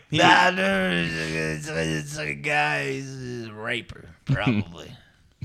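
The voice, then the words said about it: Bellowing impression of a friend. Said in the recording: “Good Rory impression ... No, it wasn't good. ... that bellowing voice”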